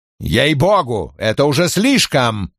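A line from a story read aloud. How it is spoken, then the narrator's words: Roaring. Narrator (Russian): взревел Крэмер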